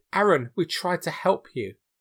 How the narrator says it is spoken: Whilst being stabbed, Peter pleaded

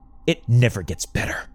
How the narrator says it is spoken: Lucy spat

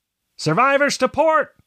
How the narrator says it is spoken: the lookout shouted

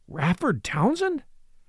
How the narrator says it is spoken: exclaimed Hartley, with a grim tightening of his jaw

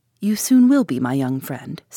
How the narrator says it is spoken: said the German

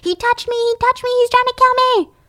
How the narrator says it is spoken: She'd be screaming

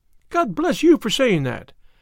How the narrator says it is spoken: cried Miss Harrison

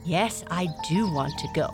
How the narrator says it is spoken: Blackie said

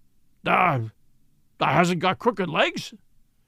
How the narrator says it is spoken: quavered Ben, more hoarsely yet

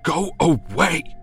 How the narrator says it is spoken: screams Simon

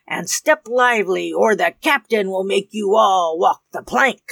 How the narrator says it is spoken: growled Bloody Dick

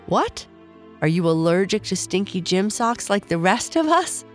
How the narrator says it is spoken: Rachel asked, lowering her book so that Charlie could see that she was laughing

